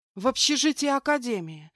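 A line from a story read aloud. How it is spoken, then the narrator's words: Loud frustrated exhale. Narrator (Russian): шумно выдохнула я, поняв, что не смогу до них достучаться, как бы ни пыталась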